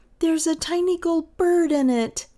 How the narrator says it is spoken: she cried

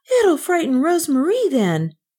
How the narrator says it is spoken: cried

